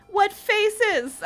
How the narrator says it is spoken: I cried

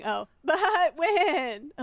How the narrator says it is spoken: Elizabeth said, laughing

